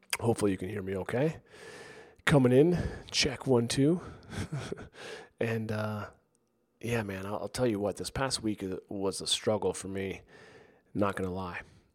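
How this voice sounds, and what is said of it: Strained, under-the-weather voice. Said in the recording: “I've been a little under the weather this past week. And my voice is struggling at the moment.”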